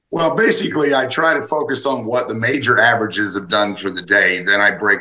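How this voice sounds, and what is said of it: Southern American accent. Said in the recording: “He's got this Southern accent.”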